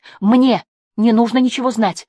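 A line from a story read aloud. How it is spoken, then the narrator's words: Exclamation. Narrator (Russian): воскликнула она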